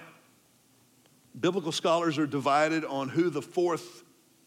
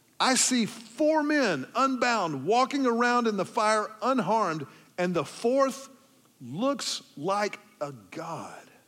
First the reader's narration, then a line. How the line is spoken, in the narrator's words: Nebuchadnezzar shouted